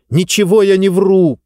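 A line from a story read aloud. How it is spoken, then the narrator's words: Shouting. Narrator (Russian): крикнула Диба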